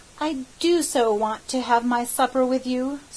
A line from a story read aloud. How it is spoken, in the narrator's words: sighed Sarah Ray